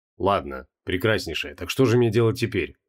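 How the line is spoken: Calm inquiry. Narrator (Russian): спокойно поинтересовался Креол

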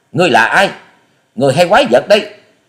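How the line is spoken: Frightened, forced-calm shout. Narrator (Vietnamese): Thiếu nữ áo xanh hốt hoảng, gượng giọng bình tĩnh quát to

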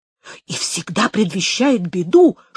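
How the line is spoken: Whisper. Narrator (Russian): шепотом ответил Гомес

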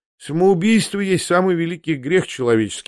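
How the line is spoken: Sighing reply. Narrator (Russian): ответил он, вздохнув

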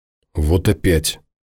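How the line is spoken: Barely audible mutter. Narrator (Russian): еле слышно пробормотала Леся

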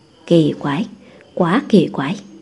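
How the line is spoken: Puzzled muttering. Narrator (Vietnamese): Tôn Húc lẩm bẩm nói

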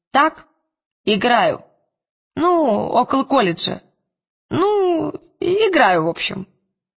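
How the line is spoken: Babbling. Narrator (Russian): Она пролепетала

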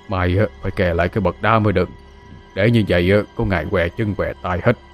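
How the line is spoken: Doddering old man muttering. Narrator (Vietnamese): Ông lầm cầm lẩm bẩm

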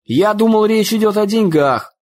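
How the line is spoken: Shouting. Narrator (Russian): выкрикнул дядя Хосе

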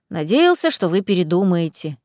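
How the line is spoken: Young man's sigh. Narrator (Russian): вздохнул парень

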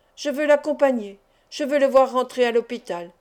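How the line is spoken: Conflicted man exclaiming. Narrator (French): s'écria le gouverneur, qui luttait contre lui-même, comme s'il eût refusé de se rendre à l'évidence

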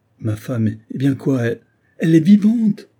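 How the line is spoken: Exclaiming. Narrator (French): s'écria Olivia

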